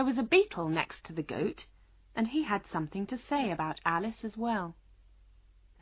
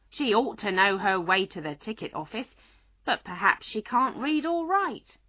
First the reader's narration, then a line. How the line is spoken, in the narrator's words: A goat that was sitting next to the gentleman in white said loudly